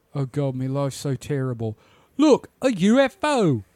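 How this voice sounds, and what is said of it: Exaggerated fake British accent. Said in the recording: “That is a terrible British accent. ... No, pitch perfect, no notes.”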